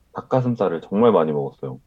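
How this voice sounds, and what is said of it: Voice pitched half a tone higher. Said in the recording (Korean): “많이 해본 말투였어요. ... 그 전에는 되게 차분하게 얘기하다가 반톤 높아진 목소리로”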